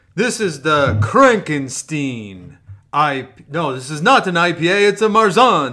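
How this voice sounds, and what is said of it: Dracula-style vampire voice. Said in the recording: “That's why I'm talking like a vampire. ... that was a better Dracula than Frankenstein, but that was a good Dracula.”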